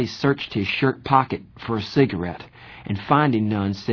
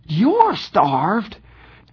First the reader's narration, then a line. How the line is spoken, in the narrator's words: Johnny was so indignant he nearly squeaked